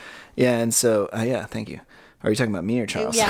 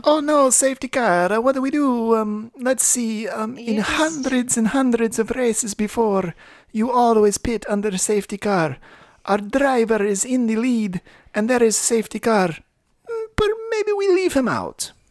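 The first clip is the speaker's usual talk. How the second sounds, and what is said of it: Put-on accent. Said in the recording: “Your accent. ... Oh, I held it. I stuck with it.”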